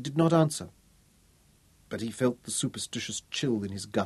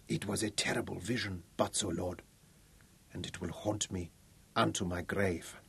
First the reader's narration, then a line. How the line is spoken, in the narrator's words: suddenly she whispered